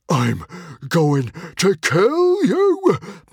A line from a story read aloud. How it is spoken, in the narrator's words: panted Norbert the Nutjob, his eyes watering with the pain of having his beard pulled